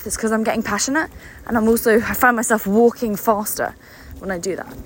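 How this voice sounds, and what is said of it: Out of breath while talking. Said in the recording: “getting out of breath,”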